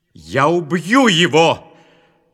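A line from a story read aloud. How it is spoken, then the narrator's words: Shouting. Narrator (Russian): закричал Исав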